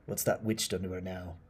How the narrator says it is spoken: Elliot chuckled, already anticipating another ludicrous story

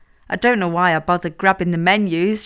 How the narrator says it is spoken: she laughed

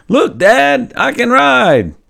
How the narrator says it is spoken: I yelled out

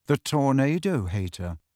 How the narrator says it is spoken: said Cho rather coolly

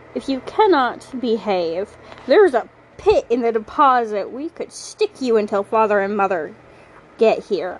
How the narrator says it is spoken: I snarl at him

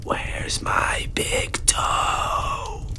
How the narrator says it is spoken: In whispers, said

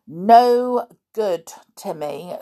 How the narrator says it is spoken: said George firmly

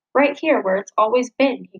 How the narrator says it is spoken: growled

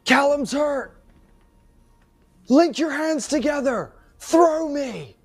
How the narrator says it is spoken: shout to Lex and say

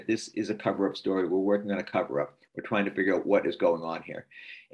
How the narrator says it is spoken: Walter Robinson, who was the leader of the team, very quickly said

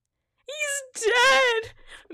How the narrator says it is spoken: Manleaf wailed in sorrow

